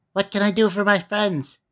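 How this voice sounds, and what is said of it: Squeaky little voice. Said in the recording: “in her squeaky little voice”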